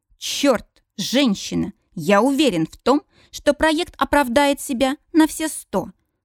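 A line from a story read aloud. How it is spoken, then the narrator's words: Impatient, through gritted teeth. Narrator (Russian): Сквозь зубы цежу я, теряя терпение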